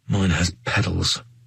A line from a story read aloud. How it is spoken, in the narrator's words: muttered under my breath